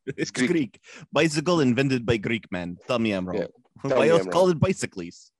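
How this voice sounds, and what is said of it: Bad put-on Greek accent. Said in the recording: “worst Greek impression I've ever done in my life ... my standard Southern Europe”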